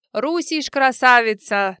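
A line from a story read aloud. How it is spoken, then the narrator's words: Shout, broken Russian. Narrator (Russian): на ломаном русском прокричал один из них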